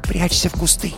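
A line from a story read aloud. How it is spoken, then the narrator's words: Whispering. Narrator (Russian): прошептала сестра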